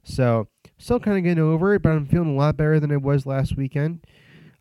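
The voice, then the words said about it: Slightly nasal, congested voice. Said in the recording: “I sound a little nasally right now”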